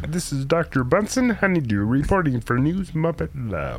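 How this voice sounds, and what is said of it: Muppet character voice. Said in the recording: “I got a Muppet. I can do some Muppets. ... That's pretty good.”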